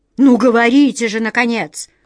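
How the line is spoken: Stern command. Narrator (Russian): строго приказала на них королева

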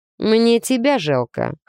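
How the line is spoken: Snorting. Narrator (Russian): хмыкнул он

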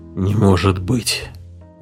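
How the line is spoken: Breathed out. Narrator (Russian): выдохнул Эдгарсон

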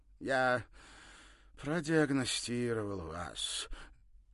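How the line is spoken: Unexpectedly mournful voice. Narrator (Russian): неожиданно скорбным голосом сообщил он

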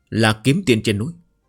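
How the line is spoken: Woman, despairing, trembling. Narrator (Vietnamese): một nữ nhân, tràn đầy tuyệt vọng run rẩy nói

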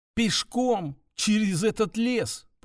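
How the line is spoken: Near shout, incredulous. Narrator (Russian): почти выкрикнула она, не в силах поверить, что ее вынуждают даже рассматривать столь варварскую идею

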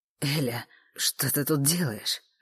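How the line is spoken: Hoarse question. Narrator (Russian): осипшим голосом спросил Саша

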